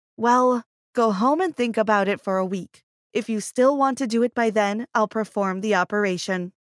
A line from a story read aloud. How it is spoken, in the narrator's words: Since we insisted so much, the doctor sighed and replied